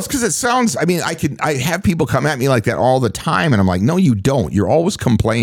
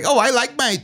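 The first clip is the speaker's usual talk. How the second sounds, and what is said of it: Mocking put-on voice. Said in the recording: “That voice you did was something.”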